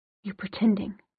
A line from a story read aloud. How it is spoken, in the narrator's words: she said, her voice shaking